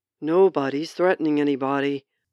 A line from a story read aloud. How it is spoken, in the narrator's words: Short Guy growled